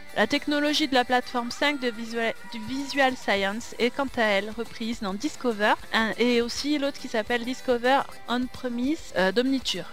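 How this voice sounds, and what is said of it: Heavy French accent on English terms. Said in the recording (French): “J'ai un très mauvais accent”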